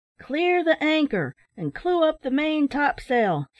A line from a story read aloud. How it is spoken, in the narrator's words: shouted the mate